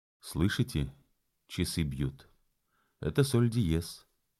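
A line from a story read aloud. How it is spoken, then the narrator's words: Relieved sigh. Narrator (Russian): Трубач-драгун вздохнул с облегчением и сказал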